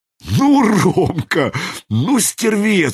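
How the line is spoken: Breathed out. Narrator (Russian): выдохнул Зислис

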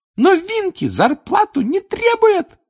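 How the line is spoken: Squeaky. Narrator (Russian): пропищала она

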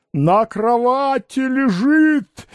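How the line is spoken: Frenzied shouting. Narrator (Russian): иступленно кричал Пряхин

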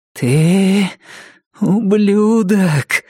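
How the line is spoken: Low trembling voice. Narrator (Russian): сказала Джесси низким дрожащим голосом

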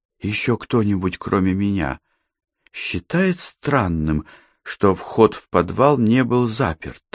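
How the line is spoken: Whispered question. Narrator (Russian): шепотом спросила Катерина

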